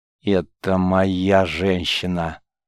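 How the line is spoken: Growled. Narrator (Russian): прорычал рогоносец

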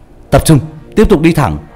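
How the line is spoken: Loud shout. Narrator (Vietnamese): trọng hét to

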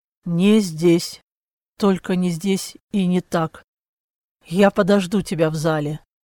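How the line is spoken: Hoarse, behind curtain. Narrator (Russian): из-за которой хрипло произнес

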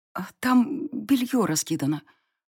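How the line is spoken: Mouthed whisper. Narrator (Russian): прошептала я одними губами

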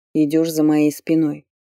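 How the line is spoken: Dry, barely moving lips. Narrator (Russian): Сухо, почти не разжимая губ, обронил он

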